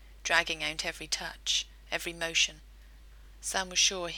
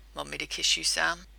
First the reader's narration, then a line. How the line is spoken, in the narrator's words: He growled the words